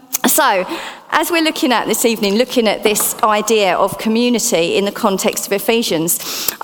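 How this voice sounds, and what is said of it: Essex accent. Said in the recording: “my Essex accent”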